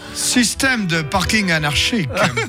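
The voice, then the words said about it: Put-on German accent. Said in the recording (French): “tu nous le fais avec l'accent allemand.”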